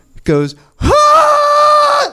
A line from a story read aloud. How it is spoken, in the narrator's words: screams at me